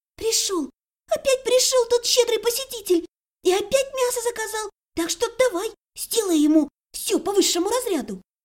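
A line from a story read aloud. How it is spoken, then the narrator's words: Joyful whisper. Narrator (Russian): радостно зашептала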